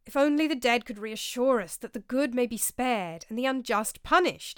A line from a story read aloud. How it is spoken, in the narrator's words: exclaimed Brother Lawrence